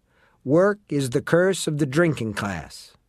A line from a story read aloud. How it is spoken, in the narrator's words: says a third